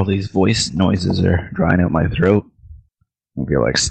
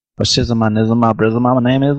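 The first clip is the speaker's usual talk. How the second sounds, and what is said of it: Gangsta-style character voice. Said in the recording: “I want to hear Gangsta”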